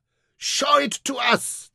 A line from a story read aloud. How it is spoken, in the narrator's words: cried